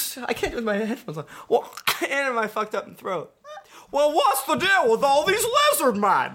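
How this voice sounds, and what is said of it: Usual voice. Nothing is said of it.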